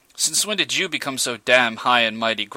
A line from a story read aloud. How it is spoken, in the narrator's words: growled Nash